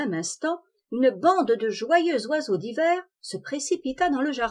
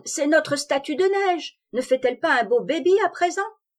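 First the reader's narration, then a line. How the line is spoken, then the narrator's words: Excited shout. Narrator (French): cria Pivoine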